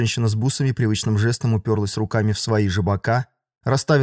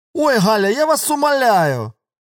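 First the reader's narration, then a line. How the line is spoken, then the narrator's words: Loud shouting. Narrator (Russian): Тетя Мира вдруг громко принялась кричать куда-то в сторону кухни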